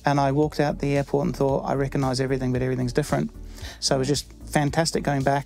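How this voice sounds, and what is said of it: New Zealand accent. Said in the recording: “I've clearly lost all my accent, haven't I? No, it's remained ... I still sound like a New Zealander”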